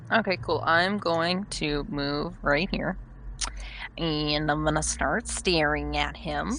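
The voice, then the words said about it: New character voice for role-play. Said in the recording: “my new character voice for Cyrix ... I hate your new character voice. That's a Derek-style voice.”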